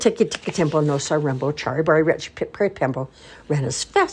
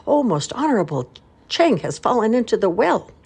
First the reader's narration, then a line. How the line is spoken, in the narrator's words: Tiki Tiki Tembo No Sa Rembo Chari Bari Ruchi Pip Peri Pembo raised his voice and cried